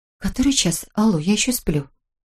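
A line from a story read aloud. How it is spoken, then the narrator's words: Sleepy mumble. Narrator (Russian): Она пробормотала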